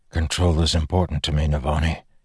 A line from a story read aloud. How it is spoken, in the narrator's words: he said, his voice hoarse